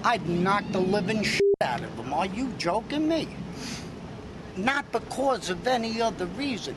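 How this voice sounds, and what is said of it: Brooklyn-style American accent. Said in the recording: “I think he's from Vegas by way of Brooklyn. That accent of his.”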